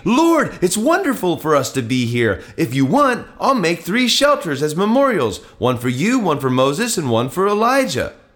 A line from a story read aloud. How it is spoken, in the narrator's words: Peter exclaimed